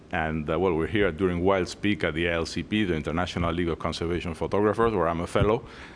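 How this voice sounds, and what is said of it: Spanish accent. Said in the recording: “I'm originally from Spain. That's where my funny accent comes from.”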